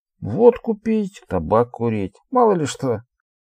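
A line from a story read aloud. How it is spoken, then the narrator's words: Cheerful male voice. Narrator (Russian): по-прежнему весело проговорил Алексей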